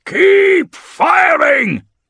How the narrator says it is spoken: roars

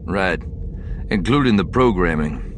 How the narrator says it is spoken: Lando said dryly

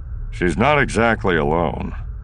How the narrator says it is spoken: Han said dryly

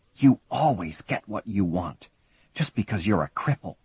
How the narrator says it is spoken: Katie whispered hissingly in his ear

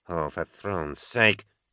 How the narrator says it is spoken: she hissed

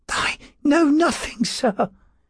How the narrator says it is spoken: he gasped

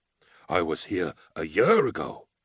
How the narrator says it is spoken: Balak cried

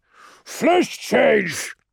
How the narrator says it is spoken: shouted

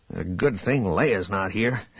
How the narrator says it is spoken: Han muttered

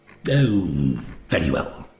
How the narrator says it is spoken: he said gruffly

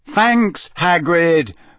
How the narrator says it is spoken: said Harry loudly, so that Hagrid wouldn't blunder on and reveal that he had shown Harry the dragons beforehand

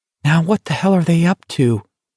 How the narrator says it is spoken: Pearson whispered fearfully to himself

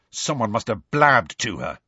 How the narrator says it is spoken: Ron said angrily

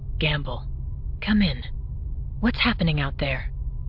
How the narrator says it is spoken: keeping her voice very low, said

